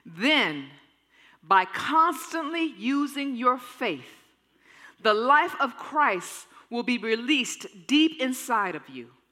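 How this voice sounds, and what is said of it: Slow, deliberate reading. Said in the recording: “I'm going to read it slowly.”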